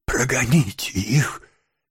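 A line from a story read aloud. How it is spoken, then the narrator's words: Weakening voice, sick woman. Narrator (Russian): слабеющим голосом сказала больная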